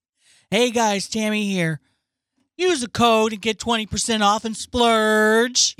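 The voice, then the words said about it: Imitates another person's voice. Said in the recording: “imitating her”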